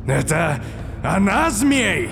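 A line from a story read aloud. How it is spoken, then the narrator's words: Joyful laughter. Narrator (Russian): Локи радостно рассмеялся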